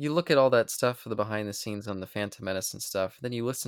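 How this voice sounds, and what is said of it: Usual voice. Nothing is said of it.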